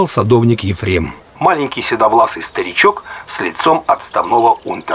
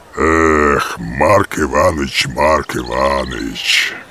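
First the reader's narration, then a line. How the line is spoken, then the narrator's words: Sighing police officer. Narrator (Russian): вздохнул становой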